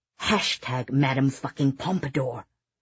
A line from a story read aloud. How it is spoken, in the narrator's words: Oliver muttered under his breath